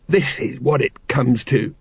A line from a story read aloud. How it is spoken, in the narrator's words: muttered Colon